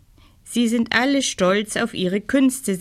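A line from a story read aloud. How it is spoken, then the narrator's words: Plain. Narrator (German): sagte Janis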